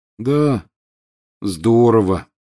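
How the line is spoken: Glum agreement. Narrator (Russian): уныло подтвердил Рон

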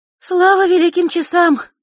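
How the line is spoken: Relieved exhale. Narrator (Russian): облегченно выдохнула Диана

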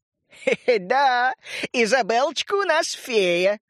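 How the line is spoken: Laughing. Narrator (Russian): засмеялся врач

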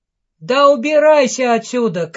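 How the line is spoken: Shouting. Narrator (Russian): крикнул Нино

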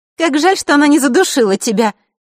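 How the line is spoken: Gleeful snort. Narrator (Russian): Дейла радостно фыркнула

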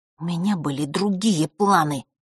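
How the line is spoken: Through gritted teeth. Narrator (Russian): процедила Василиса

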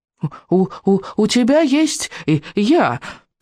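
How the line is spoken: High squeak. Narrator (Russian): пропищал Беззубик

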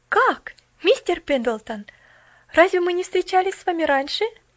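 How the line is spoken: Exclaimed. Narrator (Russian): воскликнула она

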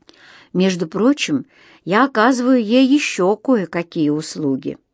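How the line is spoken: Barely audible addition. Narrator (Russian): добавил так тихо, еле слышно

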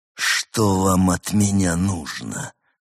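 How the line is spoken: Strangled hiss. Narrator (Russian): сдавленно прошипел он

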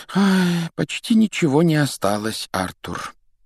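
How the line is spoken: Sigh. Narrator (Russian): вздохнула она

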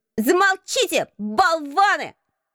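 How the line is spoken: Sudden shout, strange creature. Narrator (Russian): крикнуло вдруг это странное существо

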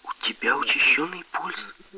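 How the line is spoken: Quiet. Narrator (Russian): Таня … тихо произнесла

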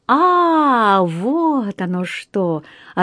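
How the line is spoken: Puzzled drawl. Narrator (Russian): озадаченно протянул мистер Чорч

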